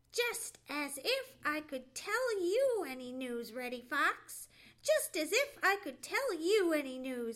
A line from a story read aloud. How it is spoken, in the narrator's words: he exclaimed